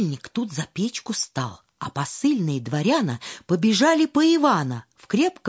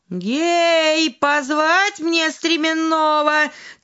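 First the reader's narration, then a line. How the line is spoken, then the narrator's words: Shouting. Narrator (Russian): царь посыльным закричал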